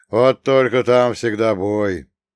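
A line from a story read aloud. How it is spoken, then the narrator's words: Gloomy remark. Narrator (Russian): мрачно заметил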